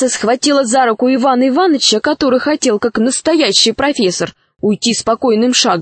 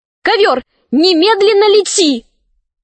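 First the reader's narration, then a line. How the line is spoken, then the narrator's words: Shout. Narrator (Russian): Шахерезада закричала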